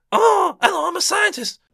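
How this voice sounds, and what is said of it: Imitates a film character's voice. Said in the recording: “the little scientist man ... It sounded like you doing your Calvin impression.”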